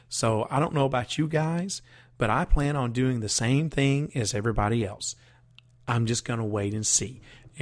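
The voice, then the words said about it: Strained, worn-out voice. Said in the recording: “my voice is all but just about given out ... try and rest my voice”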